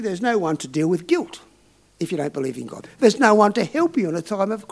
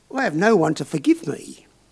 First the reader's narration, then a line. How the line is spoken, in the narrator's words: she added rather wistfully